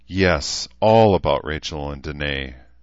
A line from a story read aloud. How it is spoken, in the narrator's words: Shida said with a sigh